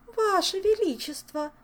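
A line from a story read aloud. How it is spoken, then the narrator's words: Pleading. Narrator (Russian): взмолилась виконтесса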